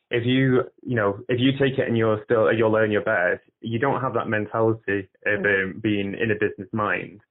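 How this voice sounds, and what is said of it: Clear Mancunian English accent. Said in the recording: “I did not realise how mancunian I was ... your accent is great. You're nice and clear to me ... I sound a bit like a Gallagher brother”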